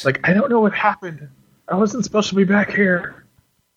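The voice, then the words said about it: Weak Michael Biehn impression. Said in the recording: “I can't do a very good Michael Biehn impression.”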